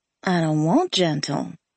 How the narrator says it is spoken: I purred

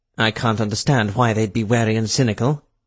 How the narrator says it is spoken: Rutherford said dryly

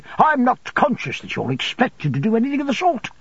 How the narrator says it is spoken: Micawber a little impatiently

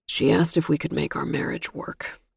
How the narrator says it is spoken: he murmured

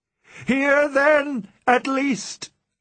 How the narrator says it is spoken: I shrieked aloud

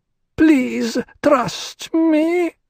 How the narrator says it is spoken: the hag whined

